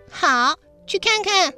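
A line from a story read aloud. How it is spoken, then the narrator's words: Loud. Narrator (Chinese): 大声说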